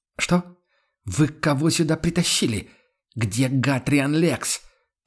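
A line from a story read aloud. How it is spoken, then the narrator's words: Furious, through clenched teeth. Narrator (Russian): Процедил сквозь зубы новоявленный император, багровея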